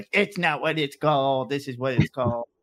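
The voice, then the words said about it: Mock Colorado accent. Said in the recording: “is that your Colorado accent?”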